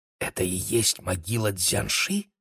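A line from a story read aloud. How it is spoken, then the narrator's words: Whispered question. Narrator (Russian): шепотом спросила Кира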